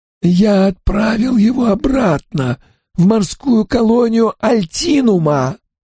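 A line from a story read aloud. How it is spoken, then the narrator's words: Hoarse whisper. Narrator (Russian): Хриплым шепотом ответил джентльмен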